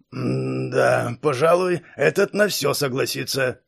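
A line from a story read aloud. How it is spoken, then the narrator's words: Old man's weary mutter. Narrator (Russian): пробормотал старик, устало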